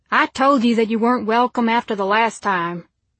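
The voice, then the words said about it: Thick Oklahoma accent. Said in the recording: “Oklahoma accent thick as peanut butter spread across a slice of toast”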